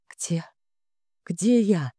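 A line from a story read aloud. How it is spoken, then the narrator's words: Hoarse croak. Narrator (Russian): прохрипела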